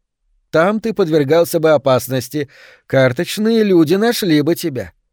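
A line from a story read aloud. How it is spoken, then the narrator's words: Cheerful, slightly affected. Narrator (Russian): сказала она весело и несколько жеманно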